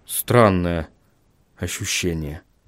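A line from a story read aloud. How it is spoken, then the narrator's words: Muttered. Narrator (Russian): пробормотал Вильям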